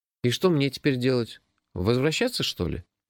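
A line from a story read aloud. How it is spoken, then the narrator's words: Confused question. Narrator (Russian): растерянно спросил я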